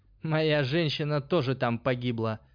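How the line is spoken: Angry snort. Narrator (Russian): гневно фыркнул альбинос

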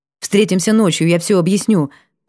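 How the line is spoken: Hurried. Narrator (Russian): произнесла торопливо

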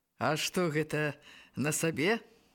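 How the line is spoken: Plain. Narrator (Belarusian): спытаў Зазыба

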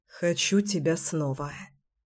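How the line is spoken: Hoarse whisper. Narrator (Russian): хрипло шептал Кирилл

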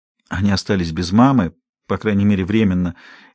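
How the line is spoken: Quiet explaining. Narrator (Russian): тихим голосом пояснила

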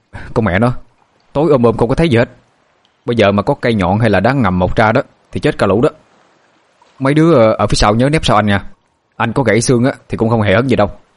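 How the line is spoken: Shout. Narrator (Vietnamese): Anh Thông hét lên

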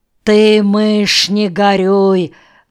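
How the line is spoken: Deep bass voice. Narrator (Russian): басом сказал Шпиц

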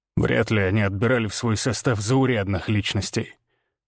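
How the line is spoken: Skeptical snort. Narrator (Russian): хмыкнул Григор

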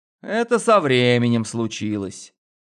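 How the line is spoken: Sighing. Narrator (Russian): Вздохнул

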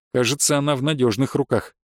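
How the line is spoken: Amused snort. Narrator (Russian): хмыкнул Дарк

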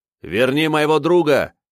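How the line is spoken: Shout. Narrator (Russian): крикнул я ему

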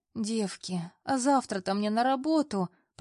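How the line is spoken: Moaning. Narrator (Russian): простонала я

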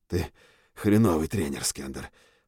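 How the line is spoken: Hoarse reply. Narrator (Russian): ответил я хрипло

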